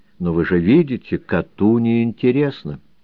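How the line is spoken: Said gently. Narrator (Russian): Владимир Николаевич мягко останавливал меня и говорил

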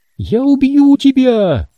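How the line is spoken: Garbled deep menacing girl's shout. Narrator (Russian): Голос девочки, нечленораздельный, басовитый и грозный, прокричал

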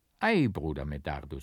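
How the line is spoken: Gentle, smiling. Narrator (German): sprach der Prior sanft lächelnd

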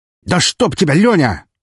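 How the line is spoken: Sudden shout. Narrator (Russian): вскрикнул сидящий на диване Сергеич одновременно со мной

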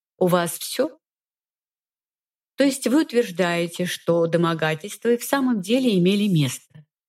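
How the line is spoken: Completely calm. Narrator (Russian): Совершенно спокойно уточнила

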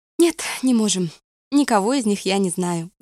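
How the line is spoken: Sighing. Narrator (Russian): вздохнула она

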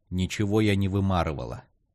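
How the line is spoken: Cold reply. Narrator (Russian): холодно ответила Николь

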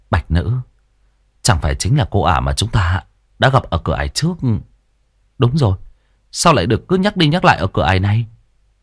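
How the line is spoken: Smiling, dawning realization. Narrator (Vietnamese): Lãnh đột nhiên mỉm cười như hiểu ra

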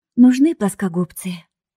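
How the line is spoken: Sighing. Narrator (Russian): вздохнула подружка

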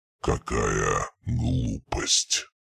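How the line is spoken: Weary resigned mutter. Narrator (Russian): Пробормотал он, и в его голосе было что-то похожее на усталое смирение

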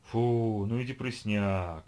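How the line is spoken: Low howl. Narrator (Russian): провыла она необычно низким тоном

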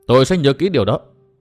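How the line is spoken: Raised voice reply. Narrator (Vietnamese): Tư Mã Minh cao giọng đáp

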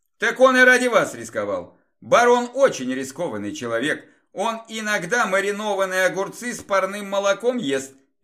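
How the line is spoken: Cheerful. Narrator (Russian): весело сказал я

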